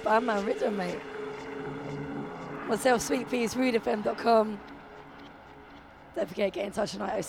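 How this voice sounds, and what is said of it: Hoarse, worn-out voice. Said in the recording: “My voice is completely shot again. I've been back at work. This is what it does to me.”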